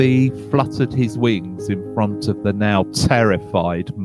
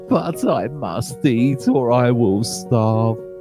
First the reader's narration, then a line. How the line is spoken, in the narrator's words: he whined